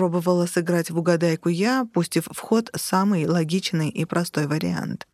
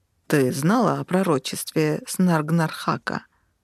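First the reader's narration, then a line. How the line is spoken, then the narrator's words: Hoarse question. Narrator (Russian): хрипло спросил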